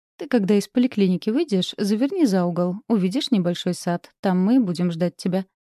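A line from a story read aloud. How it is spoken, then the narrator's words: Plain. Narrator (Russian): сказала Ева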